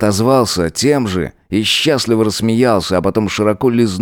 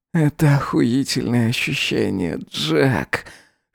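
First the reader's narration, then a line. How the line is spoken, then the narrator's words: Hoarse whisper. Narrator (Russian): хрипло прошептал он ему в губы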